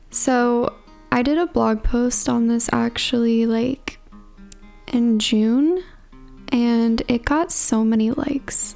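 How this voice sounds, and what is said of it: Tired-sounding voice. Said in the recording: “if I sound tired, it's like 11:30 at night right now”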